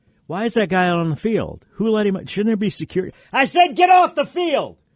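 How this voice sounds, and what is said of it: Brian Kelly impression. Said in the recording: “my Brian Kelly impersonation.”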